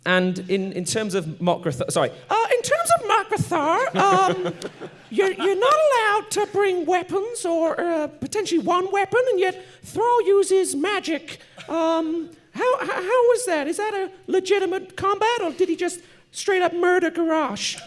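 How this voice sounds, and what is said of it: Nerdy put-on voice, church lady. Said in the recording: “You sound like the church lady. ... that's my nerd voice.”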